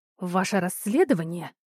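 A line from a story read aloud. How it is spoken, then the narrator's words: Menacing whisper. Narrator (Russian): оборвала Кристина, не повышая голоса, а скорее добавляя в него угрожающего шепота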